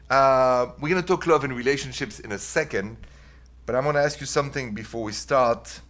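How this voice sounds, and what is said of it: French (Parisian) accent in English. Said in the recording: “The accent is French, by the way ... It's from Paris, this accent ... This accent is here to stay”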